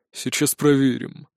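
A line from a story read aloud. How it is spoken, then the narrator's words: Ominously promising tone. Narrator (Russian): многообещающим тоном заявил он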